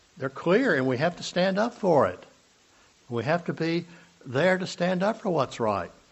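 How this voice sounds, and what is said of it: Hoarse, strained voice. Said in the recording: “I'm already losing my voice.”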